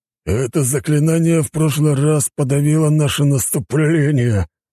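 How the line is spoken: Through gritted teeth. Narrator (Russian): Процедил сквозь зубы генерал

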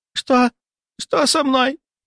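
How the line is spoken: Hoarse whistling distorted voice. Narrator (Russian): попыталась сказать она, но голос уже изменился, стал хриплым, свистящим, словно говорила через трубу

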